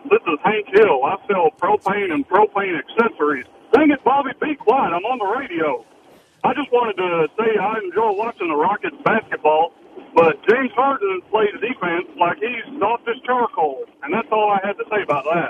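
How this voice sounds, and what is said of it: Hank Hill impression, Texas drawl. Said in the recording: “I don't even know if that's his real voice, being that this is Texas. ... might be an impression. The character is from Texas, but that's a pretty good impression.”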